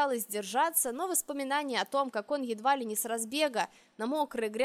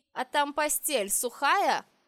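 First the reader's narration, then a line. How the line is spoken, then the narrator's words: Mocking question. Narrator (Russian): насмешливо поинтересовался Динар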